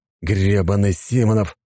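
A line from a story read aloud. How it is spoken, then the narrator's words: Displeased grumbling. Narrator (Russian): послышалось недовольное ворчание Ника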